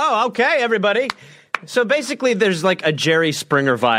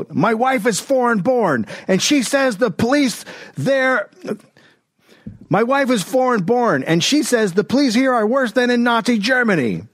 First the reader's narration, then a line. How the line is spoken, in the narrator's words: one guy yelled